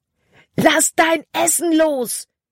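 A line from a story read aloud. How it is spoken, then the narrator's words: Shouting. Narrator (German): schrie Caleb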